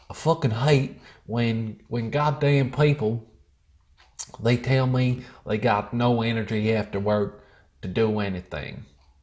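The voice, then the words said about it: Put-on American accent. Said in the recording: “Do you want me to put an accent for it? ... We'll go American. We'll go full patriotic American”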